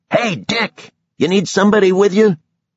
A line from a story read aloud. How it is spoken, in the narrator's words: somebody yelled